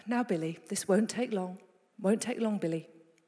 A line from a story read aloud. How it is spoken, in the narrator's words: And the dad was just very, very calmly saying